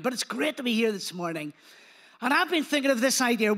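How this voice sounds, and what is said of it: Strong Belfast accent. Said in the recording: “my accent, some people say, it's fading, but I don't know. I think I've still got quite a strong Belfast accent.”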